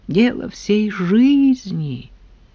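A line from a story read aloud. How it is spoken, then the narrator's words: Sighing. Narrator (Russian): вздохнул Абрам Борисович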